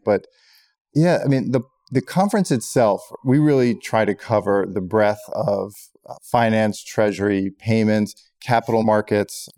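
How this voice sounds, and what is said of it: Hoarse voice. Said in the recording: “I might sound a little bit hoarse from talking, from shouting, clapping”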